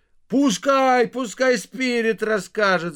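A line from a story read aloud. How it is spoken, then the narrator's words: Crowd shouting. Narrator (Russian): закричала толпа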